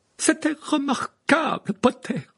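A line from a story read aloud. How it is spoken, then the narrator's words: Praising exclamation. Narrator (French): s'écria le professeur McGonagall, ce qui venant de sa part constituait un éloge extraordinaire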